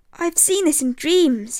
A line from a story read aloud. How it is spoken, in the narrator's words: cried